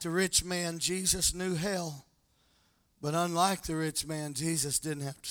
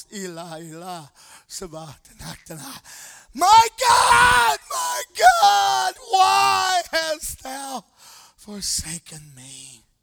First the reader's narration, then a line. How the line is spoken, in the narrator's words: he cried from the cross